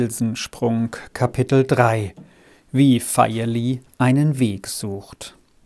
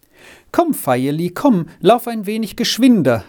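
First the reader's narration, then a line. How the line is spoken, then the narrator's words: Called out. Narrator (German): rief sie ihm entgegen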